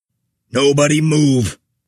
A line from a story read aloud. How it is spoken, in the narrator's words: Vessel bellowed more authoritatively